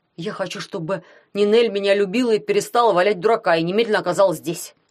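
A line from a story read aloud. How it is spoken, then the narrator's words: Shout. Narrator (Russian): крикнул дядя Герман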